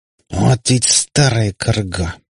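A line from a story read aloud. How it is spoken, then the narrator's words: Growled, then softened. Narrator (Russian): прорычал он, но тут же сбавил тон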